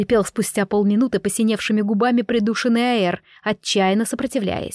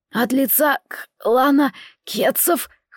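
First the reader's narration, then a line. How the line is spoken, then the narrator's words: Hoarse wheeze. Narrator (Russian): хрипел мой пленник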